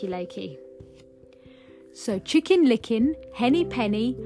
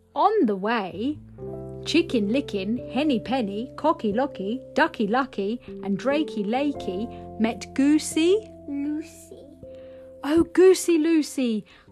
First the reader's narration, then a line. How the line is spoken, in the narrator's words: cried Chicken Licken